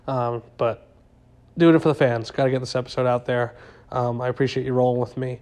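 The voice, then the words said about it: Strained, failing voice. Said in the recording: “you hear me. Uh, my voice is going as we speak. I'm dying.”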